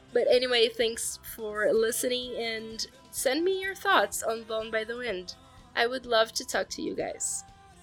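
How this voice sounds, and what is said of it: Sick, rough-sounding voice. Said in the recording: “sorry about my voice this episode. I'm coming down with something, so my voice has been really shitty this week”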